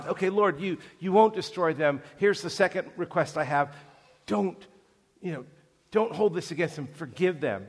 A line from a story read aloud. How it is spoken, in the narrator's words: Moses is pleading with God